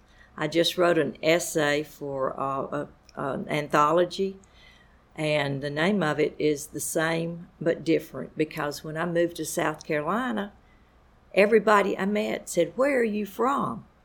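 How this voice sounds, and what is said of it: Southern Alabama accent. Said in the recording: “I am from Lower Alabama, as you can probably tell by my accent ... why is my accent so different from the South Carolina accents?”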